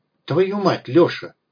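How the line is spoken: Hissed. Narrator (Russian): прошипела она

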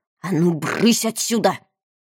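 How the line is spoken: Hissing. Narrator (Russian): она прошипела

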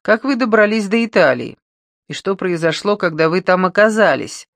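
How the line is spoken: Laughing. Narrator (Russian): Кэтрин рассмеялась

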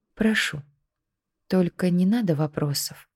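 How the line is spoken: Quiet. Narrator (Russian): тихо произнесла она

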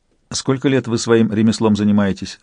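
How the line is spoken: Dry question. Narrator (Russian): сухо спросил Сварог

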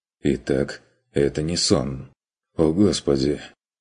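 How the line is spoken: Relieved mutter. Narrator (Russian): Облегченно пробормотал Курт

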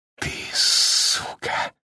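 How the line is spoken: Whispering. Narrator (Russian): прошептал

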